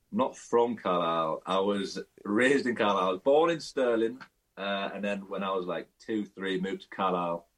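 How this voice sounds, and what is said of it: Cumbrian English accent. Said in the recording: “You certainly got the Cumbrian accent.”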